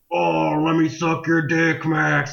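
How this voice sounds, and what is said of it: Impression of a dragon's voice. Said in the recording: “listen to how perfect my impression of this dragon is”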